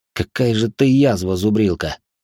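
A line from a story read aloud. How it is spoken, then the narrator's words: Through gritted teeth. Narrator (Russian): Процедил Мирон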